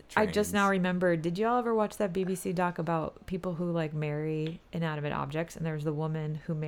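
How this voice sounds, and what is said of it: Usual voice. Nothing is said of it.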